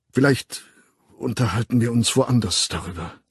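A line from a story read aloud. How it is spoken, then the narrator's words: Embarrassed stammering. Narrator (German): stammelte er und wirkte schrecklich verlegen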